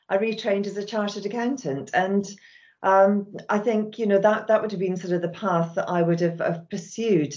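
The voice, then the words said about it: Scottish accent. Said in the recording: “You can possibly hear from my accent that I was brought up and raised in Scotland”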